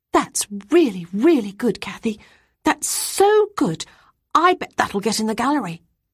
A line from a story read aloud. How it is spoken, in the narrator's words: who was a year older than me, exclaiming